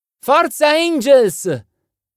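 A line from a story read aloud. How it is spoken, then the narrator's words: Girls cheering loudly. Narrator (Italian): gridarono le ragazze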